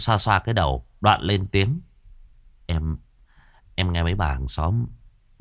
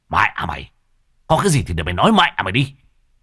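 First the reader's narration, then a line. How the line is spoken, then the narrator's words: Almost shouting. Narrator (Vietnamese): Lão Thiết nói như quát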